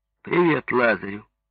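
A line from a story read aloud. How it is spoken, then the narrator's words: Mocking. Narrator (Russian): Ивана Яковлевича, который говорил ему насмешливо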